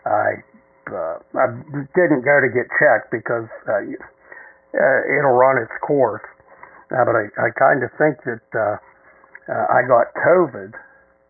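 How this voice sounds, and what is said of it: Heavy breathing, sick-sounding voice. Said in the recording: “I apologize for the heavy breathing this evening. ... I am have been feeling under the weather for quite some time now. You can hear it in my voice,”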